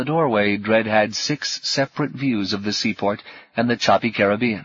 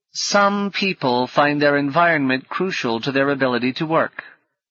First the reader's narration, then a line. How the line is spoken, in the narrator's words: said one of the Baenas, her tone implying that neither she nor her sister were such people